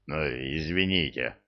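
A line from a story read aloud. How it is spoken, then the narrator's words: Embarrassed mumble. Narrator (Russian): смущенно буркнул орк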